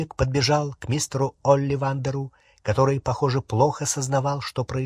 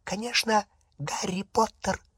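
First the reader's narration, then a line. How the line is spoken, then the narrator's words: Whispered. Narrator (Russian): прошептал Добби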